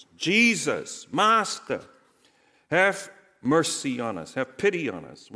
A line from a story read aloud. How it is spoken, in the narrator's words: They stood at a distance and called out in a loud voice